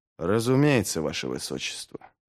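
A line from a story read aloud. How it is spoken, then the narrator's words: Strained mutter. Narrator (Russian): пробормотал через силу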